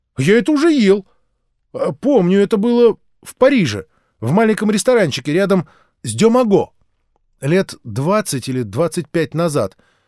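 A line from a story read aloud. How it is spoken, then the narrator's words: Father's sudden exclamation. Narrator (Russian): отец вдруг воскликнул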